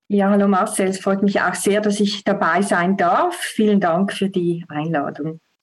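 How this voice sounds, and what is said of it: Swiss accent speaking German. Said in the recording (German): “wie man schon ein bisschen am Akzent rausfindet, ähm, kommst du ja nicht zwingend aus Deutschland ... Ich komme aus der Schweiz.”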